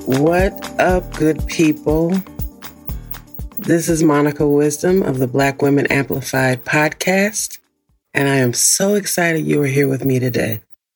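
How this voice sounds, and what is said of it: Unusually deep morning voice. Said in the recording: “you will notice that my voice is incredibly deep right now. This is my morning voice. This is the voice that you get before noon, before my vocal cords warm up... I sound like a different person”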